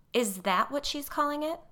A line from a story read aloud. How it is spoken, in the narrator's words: said Molly